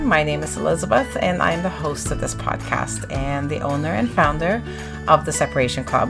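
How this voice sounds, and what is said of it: Raspy voice. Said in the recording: “my raspy voice ... getting over a bit of a cold, and that really kind of hit me right in the throat”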